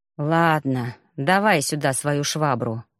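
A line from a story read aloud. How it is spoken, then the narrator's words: Sighing cadet. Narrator (Russian): вздохнул курсант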